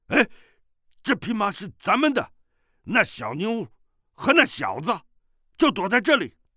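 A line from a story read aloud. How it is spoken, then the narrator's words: Calling out. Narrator (Chinese): 有人叫道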